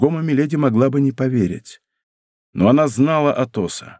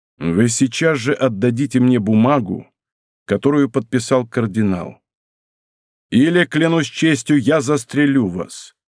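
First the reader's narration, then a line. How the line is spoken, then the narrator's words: Firm voice. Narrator (Russian): твердым голосом произнес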